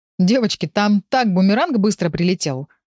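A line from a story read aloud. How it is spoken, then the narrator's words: Wry chuckle. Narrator (Russian): хмыкнул Павел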